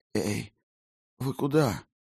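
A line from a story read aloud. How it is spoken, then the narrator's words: Weak whispered protest. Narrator (Russian): Шепотом, громче не получалось, запротестовала Клара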